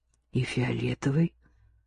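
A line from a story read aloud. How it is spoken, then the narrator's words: Muttering to herself. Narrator (Russian): пробормотала себе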